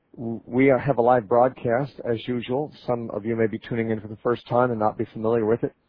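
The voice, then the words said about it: Congested, altered voice. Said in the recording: “My voice is still a little affected from allergies ... I got a little congested, and my voice has been affected ever since ... I just don't sound like myself”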